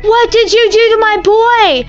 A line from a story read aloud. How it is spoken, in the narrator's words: Grandpa Jack screamed